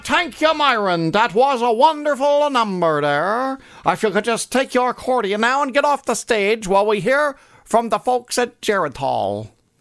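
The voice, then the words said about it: Poor Lawrence Welk impression. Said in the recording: “that was not a very good Lawrence Welk impression.”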